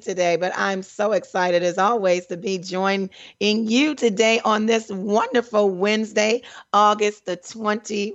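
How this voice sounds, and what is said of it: Slightly raspy voice. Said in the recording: “My voice, you guys ... My voice was taken ... I'm a little raspy”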